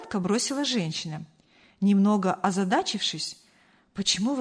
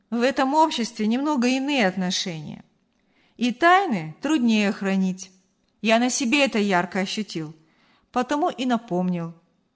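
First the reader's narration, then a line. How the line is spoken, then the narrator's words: Conciliatory explanation. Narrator (Russian): примирительным тоном пояснил Артур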